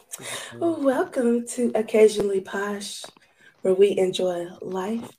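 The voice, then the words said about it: Quiet, sultry late-night voice. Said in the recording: “trying to be sensual ... put on my midnight voice ... That quiet storm got real quiet”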